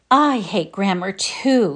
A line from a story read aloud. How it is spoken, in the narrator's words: sighed Sarah Ray